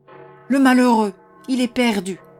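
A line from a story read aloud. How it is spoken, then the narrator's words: Choked terrified moan. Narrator (French): gémit Mone d'une voix étranglée par l'épouvante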